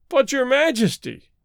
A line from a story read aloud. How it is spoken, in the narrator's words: he wailed